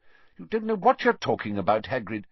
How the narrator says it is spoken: said Fudge sharply

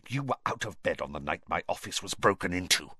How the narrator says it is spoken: Snape hissed

